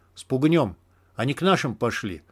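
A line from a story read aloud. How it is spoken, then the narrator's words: Quiet. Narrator (Russian): так же тихо произнес сталкер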